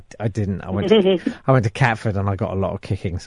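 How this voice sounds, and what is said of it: Posh English accent. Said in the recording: “You've got a posh accent.”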